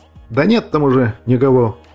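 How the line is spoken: Snapping. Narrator (Russian): огрызнулся Иван на Сэма

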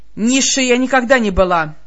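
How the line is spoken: Fierce bark. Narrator (Russian): Свирепо рявкнула демоница

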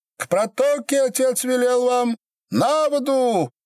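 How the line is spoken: Strange, too high shout. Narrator (Russian): Матрёна, став посреди двора странным чужим, слишком высоким голосом крикнула

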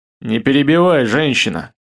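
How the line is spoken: Growl. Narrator (Russian): рыкнул Любомир

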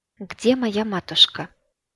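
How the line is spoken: Calm inquiry. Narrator (Russian): Спокойно поинтересовалась жрица

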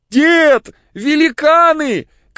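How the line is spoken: Crying shout. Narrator (Russian): крикнул ему Егорушка, плача

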